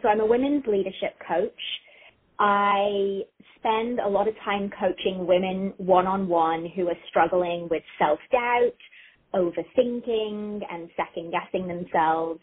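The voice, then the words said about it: English accent. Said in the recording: “that accent tells us you're not originally from there ... I love an English accent.”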